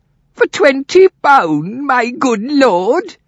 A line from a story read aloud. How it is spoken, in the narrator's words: cried Condell